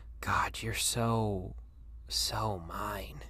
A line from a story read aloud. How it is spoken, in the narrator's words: he murmurs